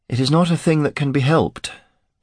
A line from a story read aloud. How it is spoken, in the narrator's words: she replied sadly